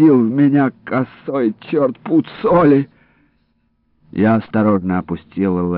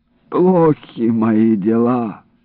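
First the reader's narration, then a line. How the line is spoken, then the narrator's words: Groaning. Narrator (Russian): простонал Иларион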